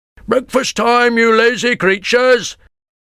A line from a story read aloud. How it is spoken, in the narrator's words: shouted a fat man